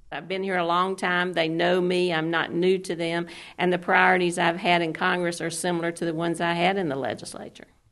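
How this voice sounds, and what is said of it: Georgia Southern accent. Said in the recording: “her accent betrays her Georgia roots”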